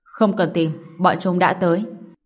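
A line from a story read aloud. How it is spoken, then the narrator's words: Cold. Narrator (Vietnamese): giáo hoàng lạnh lùng nói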